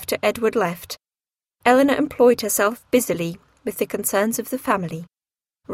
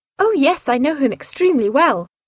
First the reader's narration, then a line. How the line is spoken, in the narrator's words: she exclaimed